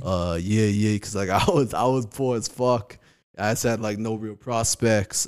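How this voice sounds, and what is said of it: New York accent. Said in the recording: “You got like a New York accent and shit.”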